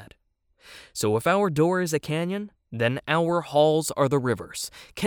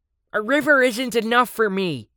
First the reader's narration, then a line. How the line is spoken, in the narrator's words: the sharky cried out